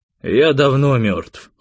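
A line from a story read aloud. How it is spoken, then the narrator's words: Cold. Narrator (Russian): холодно сказал Костя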